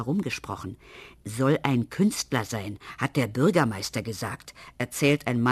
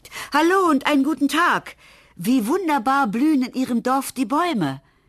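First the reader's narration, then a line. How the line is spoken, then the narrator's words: Calling from window. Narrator (German): ruft aus dem Fenster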